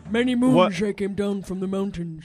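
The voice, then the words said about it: Good put-on Indian impression voice. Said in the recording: “Wow, you do a good Indian impression.”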